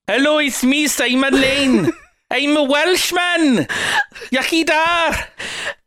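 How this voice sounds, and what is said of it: Put-on Welsh accent. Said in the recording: “Oh, you do a great Welsh accent.”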